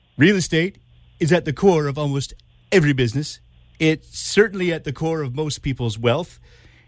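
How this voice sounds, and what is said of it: Imitates another person's voice. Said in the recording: “That's my really bad Donald Trump impression”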